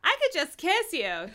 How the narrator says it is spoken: Jessica squealed

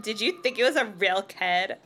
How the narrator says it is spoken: Lindy laughed scornfully

